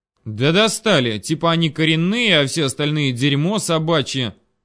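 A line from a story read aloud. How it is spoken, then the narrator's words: Angry, through gritted teeth. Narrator (Russian): Зло процедил Селин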